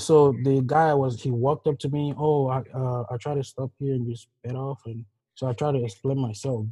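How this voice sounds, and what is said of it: Nigerian English accent. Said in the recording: “my accent ... I was like a immigrant, like somebody who came from Nigeria”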